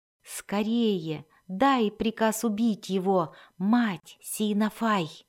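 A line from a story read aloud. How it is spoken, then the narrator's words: Sorcerer whispering. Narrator (Russian): прошептал колдун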